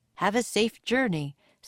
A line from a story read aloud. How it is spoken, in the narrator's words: said Plato